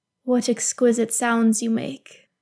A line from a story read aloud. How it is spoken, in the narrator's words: Celebrimbor murmurs